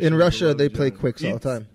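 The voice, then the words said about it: Put-on Russian accent. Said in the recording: “That's your Russian accent. ... It's the same accent he uses for everybody.”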